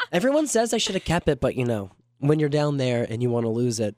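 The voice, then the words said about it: Southern US accent. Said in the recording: “my Southern accent's coming out a little more with this voice than it normally does”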